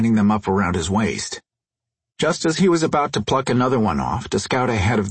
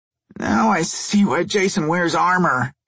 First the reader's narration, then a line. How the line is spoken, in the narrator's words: he groaned